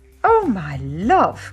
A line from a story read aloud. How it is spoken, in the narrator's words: cried Mummy